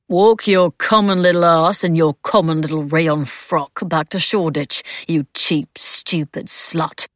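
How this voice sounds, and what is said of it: Posh upper-class English voice. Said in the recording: “in that posh voice”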